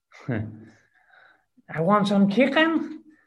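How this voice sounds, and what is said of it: Put-on Scouse accent. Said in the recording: “a little Scouse accent”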